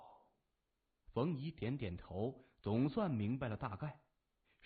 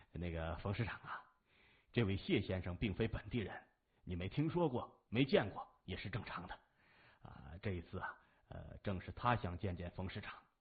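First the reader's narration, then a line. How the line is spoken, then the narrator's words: Smiling. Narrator (Chinese): 陈百成笑着说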